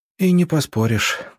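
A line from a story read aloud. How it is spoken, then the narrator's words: Exhaled. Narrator (Russian): выдохнула Маша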